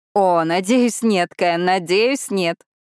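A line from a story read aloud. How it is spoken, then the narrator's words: Laughing. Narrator (Russian): Она смеялась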